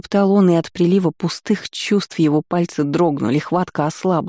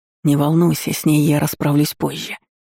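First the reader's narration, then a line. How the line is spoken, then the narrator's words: Whisper. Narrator (Russian): прошептал Наэль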